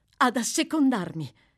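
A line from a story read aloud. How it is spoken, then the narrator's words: Girl's exclamation. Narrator (Italian): esclamò la voce della ragazza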